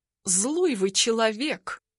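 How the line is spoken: Mumbling. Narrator (Russian): мямлю

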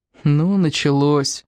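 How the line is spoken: Sad inner sigh. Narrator (Russian): печально вздохнул про себя Сим

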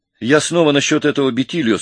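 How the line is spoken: Calm. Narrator (Russian): спокойно начал я

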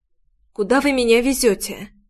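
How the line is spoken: Hoarse voice. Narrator (Russian): Голос прозвучал хрипло, будто я резко подхватила простуду

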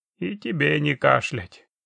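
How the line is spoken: Grumbling goblin. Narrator (Russian): пробурчал гоблин

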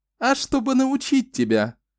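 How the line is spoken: Laughing. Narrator (Russian): Дэна рассмеялась

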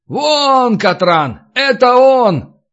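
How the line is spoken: Shout. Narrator (Russian): крикнул один из Фишкиных подручных

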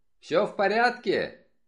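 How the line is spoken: Shouting. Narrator (Russian): Я крикнул

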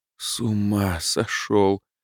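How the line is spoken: Groan. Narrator (Russian): простонал

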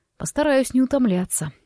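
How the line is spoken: Amused snort. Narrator (Russian): хмыкнул Форест

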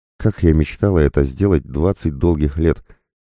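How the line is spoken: Deep sigh. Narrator (Russian): вздохнула полной грудью женщина

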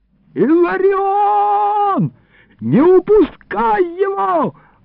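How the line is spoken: Yelling. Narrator (Russian): орал

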